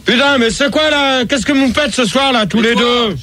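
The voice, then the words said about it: Shouting angrily. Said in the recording (French): “tu cries... Tu cries pas, je suis déstabilisé”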